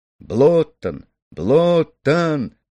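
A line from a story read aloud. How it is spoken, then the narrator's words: Shouting. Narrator (Russian): кричал Ганс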